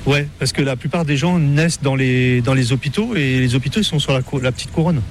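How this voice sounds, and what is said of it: Parisian French accent. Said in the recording (French): “j'ai gardé mon accent parisien ... Vous êtes quand même un parigot”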